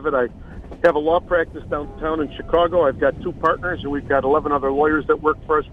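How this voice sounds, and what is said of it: Strong Chicago accent. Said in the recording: “we hear that great Chicago accent ... I've tried to lose this accent for 60 years”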